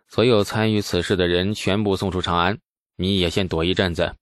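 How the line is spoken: Calm, detached. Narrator (Chinese): 淡淡的说

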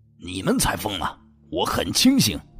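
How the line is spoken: Angry rebuke. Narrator (Chinese): 其中一个怒斥着李书俊

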